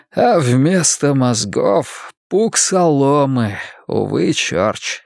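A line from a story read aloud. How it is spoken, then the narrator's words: Hoarse male voice. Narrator (Russian): хрипло проговорил он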